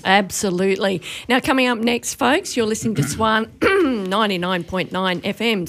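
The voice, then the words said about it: Strained, failing voice. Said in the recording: “I'm already talking too much, Robbo. My voice is going. ... I can hear that.”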